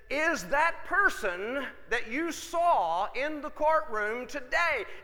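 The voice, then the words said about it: Loud booming voice. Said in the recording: “in this booming voice,”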